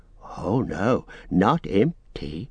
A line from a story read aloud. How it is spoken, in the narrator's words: whispered Gollum